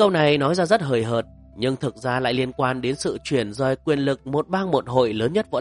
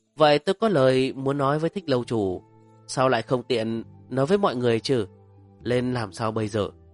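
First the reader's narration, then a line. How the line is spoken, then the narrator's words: Wistful sigh. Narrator (Vietnamese): Lôi Thuần thở dài một tiếng xa xăm nói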